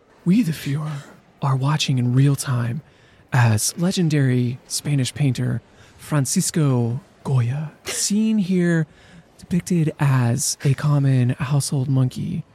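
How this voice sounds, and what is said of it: Educational video narrator voice impression. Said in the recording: “my best Khan Academy impression ... I should like take a bite of a sandwich so I have lots of lip smacks”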